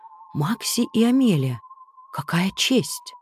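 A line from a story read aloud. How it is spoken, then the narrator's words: Whisper. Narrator (Russian): кто-то даже прошептал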